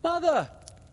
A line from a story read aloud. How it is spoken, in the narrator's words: cried Michael